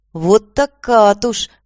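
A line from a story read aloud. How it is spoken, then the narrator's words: Exclaiming. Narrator (Russian): воскликнула Аня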